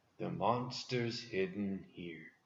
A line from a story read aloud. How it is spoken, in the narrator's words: quietly said